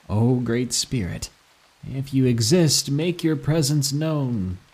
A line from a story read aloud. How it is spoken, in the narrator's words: I said sarcastically to the grave